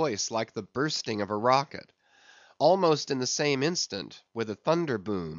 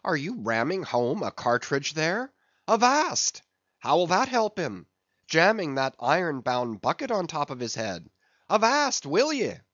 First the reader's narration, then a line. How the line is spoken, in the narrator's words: cried Stubb